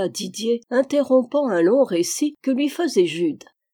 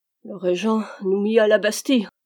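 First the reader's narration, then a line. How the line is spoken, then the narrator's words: Sighing. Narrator (French): répondit Jude avec un soupir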